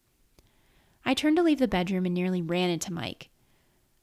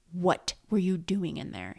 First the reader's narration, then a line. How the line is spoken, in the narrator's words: hissed